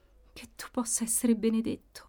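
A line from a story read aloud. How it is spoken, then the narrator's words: Reassured murmur. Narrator (Italian): mormorava lei, un po' rassicurata da quella disinvoltura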